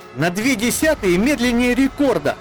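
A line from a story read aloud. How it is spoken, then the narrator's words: Shouted. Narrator (Russian): выкрикнула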